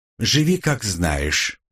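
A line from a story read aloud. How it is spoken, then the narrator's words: Soft speech. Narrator (Russian): мягко произнесла Ряжская, наклонившись ко мне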